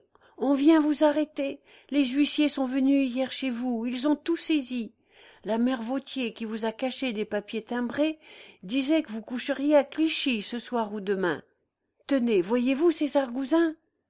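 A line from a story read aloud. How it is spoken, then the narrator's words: Shouted. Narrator (French): cria-t-il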